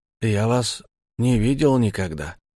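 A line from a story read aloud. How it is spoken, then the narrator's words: Forced, strained. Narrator (Russian): сказал я только, чтобы хоть чего-нибудь из себя выдавить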